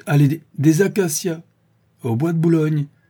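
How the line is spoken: Interrupting exclamation. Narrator (French): s'écria le maître d'école en l'interrompant

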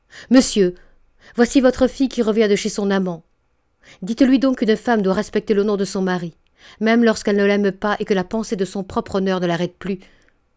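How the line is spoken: Exclaimed. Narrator (French): Nantas s'écria

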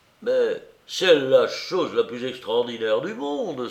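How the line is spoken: Thin man exclaiming. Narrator (French): s'écriait le plus mince des deux hommes

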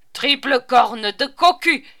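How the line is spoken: Hoarse growl. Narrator (French): grogna une voix rauque

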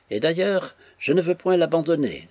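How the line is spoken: Exclaiming. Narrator (French): s'écria cet excellent frère

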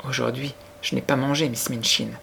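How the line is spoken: Weak voice. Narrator (French): dit Sarah d'une voix faible

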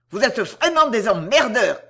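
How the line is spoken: Shouting. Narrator (French): crie-t-il à Anne

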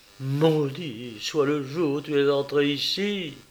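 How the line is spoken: Exclaimed. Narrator (French): s'écria-t-elle

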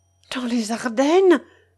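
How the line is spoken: Surprised exclamation. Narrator (French): s'écria Finette

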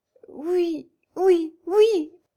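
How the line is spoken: Stammering through sobs. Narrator (French): balbutia Hébé au milieu de ses sanglots

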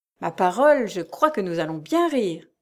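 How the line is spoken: Joyful exclamation. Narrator (French): s'écria-t-il joyeusement

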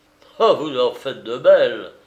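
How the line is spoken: Cried out. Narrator (French): s'écria le limier

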